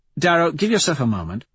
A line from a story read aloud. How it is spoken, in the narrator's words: Mustang says